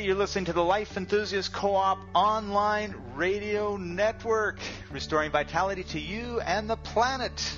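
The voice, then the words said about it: Polished announcer radio voice. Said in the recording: “if I didn't know that you're saying it live, I think this is coming from a recorded push-button something ... my radio voice just comes to the forefront when I start up our shows ... the circus barker”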